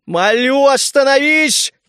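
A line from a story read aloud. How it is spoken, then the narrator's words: Spirit shouting. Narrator (Russian): крикнул дух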